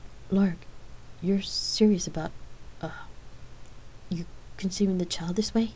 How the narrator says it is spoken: Rain stammered nervously, still stunned by Lark's revelation

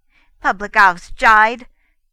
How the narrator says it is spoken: he retorted furiously

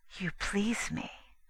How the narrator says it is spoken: she whispered

